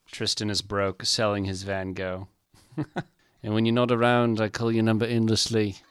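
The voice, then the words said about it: Put-on accent while reciting lyrics. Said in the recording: “I don't know why I keep slipping into that accent.”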